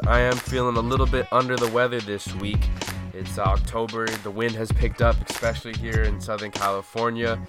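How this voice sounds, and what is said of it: Raspy, hoarse voice. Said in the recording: “my voice sounds a little bit raspier than usual”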